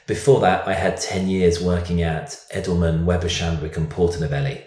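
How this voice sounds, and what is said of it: Slight British London accent. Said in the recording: “we've noticed a little bit of an accent... I'm a Brit. I am from London.”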